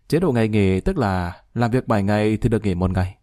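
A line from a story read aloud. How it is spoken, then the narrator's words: Smiling reply. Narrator (Vietnamese): Lý Kỳ mỉm cười đáp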